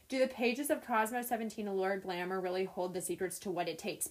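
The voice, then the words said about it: Reads very fast and quietly. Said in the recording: “why do you say that so fast? ... you read it so quiet and so quickly”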